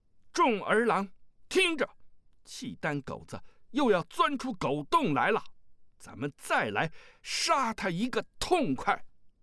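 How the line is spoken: Loud. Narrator (Chinese): 阿骨打大声道

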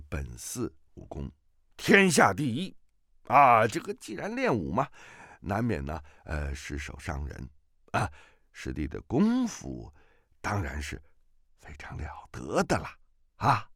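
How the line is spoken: Ingratiating, smiling. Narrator (Chinese): 定了定神，满脸堆笑，说道

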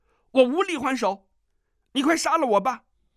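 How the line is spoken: Loud, in agony. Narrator (Chinese): 疼得他几乎要晕过去了，大声道

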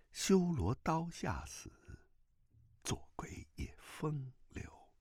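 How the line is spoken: Whispered in ear. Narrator (Chinese): 段正淳 在他耳边低声说

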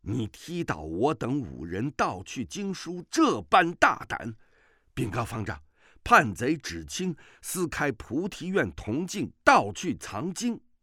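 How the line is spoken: Angry. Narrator (Chinese): 只战怒道

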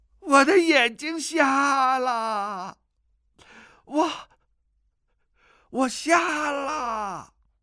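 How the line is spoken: Crying out, sobbing loudly. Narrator (Chinese): 突然之间放声大哭，叫道

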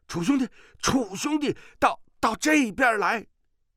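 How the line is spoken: Alarmed shout. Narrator (Chinese): 范华大惊，叫道

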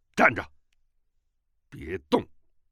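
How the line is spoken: Sharp, stern voice. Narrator (Chinese): 乔峰厉声道

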